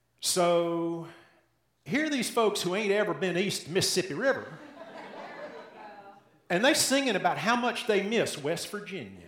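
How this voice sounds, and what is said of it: Southern American accent. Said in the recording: “If you haven't picked it up yet from my accent, I grew up in the South.”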